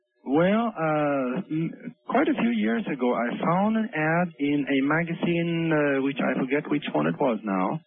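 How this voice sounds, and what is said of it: Speaks with a foreign accent. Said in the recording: “you've got an accent. You must have been from somewhere else.”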